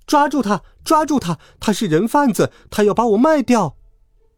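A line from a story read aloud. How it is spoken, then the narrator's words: Desperate shout. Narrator (Chinese): 我不顾一切的喊道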